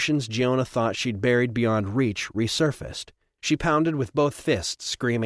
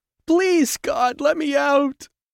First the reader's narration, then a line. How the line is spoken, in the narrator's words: Giona sobbed